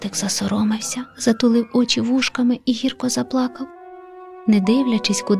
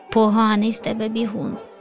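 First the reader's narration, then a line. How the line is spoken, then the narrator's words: Mocking laugh. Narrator (Ukrainian): Засміявся леопардик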